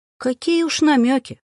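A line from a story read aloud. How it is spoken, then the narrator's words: Cheerful. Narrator (Russian): Весело проговорила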